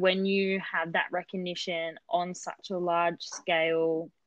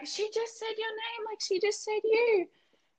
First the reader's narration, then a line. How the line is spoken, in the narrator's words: everyone was screaming